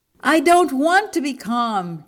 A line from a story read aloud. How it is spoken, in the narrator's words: Jim shouted